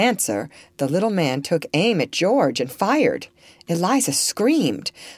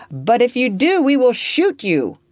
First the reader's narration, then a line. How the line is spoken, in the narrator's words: George called out